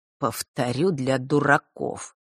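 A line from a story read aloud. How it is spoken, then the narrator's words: Ironic through teeth. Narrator (Russian): с иронией процедил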